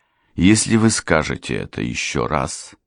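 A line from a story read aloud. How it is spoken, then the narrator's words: Calm reply. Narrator (Russian): спокойно ответил баронет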